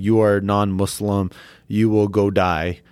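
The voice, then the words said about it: Stereotypical foreign accent. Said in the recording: “I love the accent, by the way. Yeah. Like, that was very stereotypical. You gave him that accent.”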